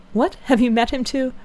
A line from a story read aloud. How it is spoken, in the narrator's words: Eleanor, startled by his manner, looked at him anxiously, saying